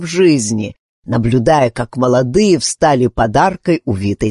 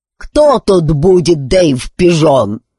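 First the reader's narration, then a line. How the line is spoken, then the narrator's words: Loud bass question. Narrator (Russian): широченная кукла вопросила громким басом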